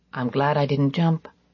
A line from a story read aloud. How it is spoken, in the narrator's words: I must have murmured aloud